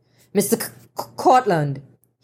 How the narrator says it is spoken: he stammered

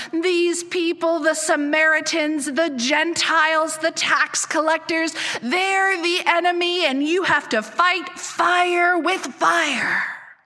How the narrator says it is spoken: The man in the back continued to bellow

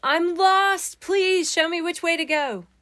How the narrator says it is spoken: I had yelled for Jesus

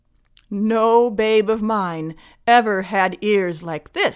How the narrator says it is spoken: said the fishwife

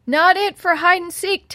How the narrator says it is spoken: Teddy yelled

